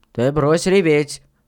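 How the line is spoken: Stern. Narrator (Russian): строго сказал Панкрат

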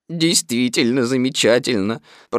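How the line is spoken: Very dejected. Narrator (Russian): продолжал я самым унылым тоном

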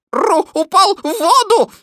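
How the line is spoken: Shouting rabbit. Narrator (Russian): закричал кролик

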